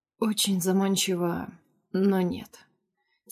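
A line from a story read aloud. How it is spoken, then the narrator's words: Quiet reply after pause. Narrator (Russian): тихо отвечает после непродолжительной паузы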